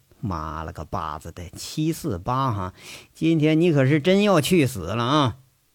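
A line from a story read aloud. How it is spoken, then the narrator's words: Muttering. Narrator (Chinese): 嘴里头喃喃的说一句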